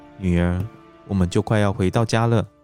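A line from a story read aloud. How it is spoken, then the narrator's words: Soft. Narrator (Chinese): 轻声和身旁的 Beth 说道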